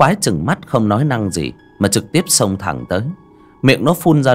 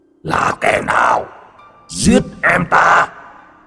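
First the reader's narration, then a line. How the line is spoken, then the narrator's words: Monster roaring. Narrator (Vietnamese): Con quái vật từ địa ngục chui lên, nó gầm thét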